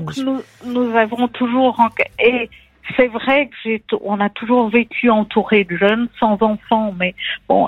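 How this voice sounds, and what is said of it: Slight Belgian French accent. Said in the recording (French): “l'accent ... Il y a un petit accent belge ... Mais qui est charmant.”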